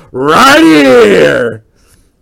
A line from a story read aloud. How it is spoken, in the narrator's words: big old booming voice